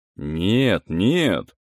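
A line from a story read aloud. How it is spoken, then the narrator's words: Fervent, hopeful exclamation. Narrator (Russian): воскликнул я с жаром, еще очарованный недавно мелькнувшей надеждой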